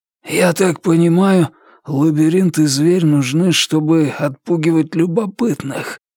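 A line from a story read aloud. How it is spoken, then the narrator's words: Hoarse. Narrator (Russian): прохрипел маркиз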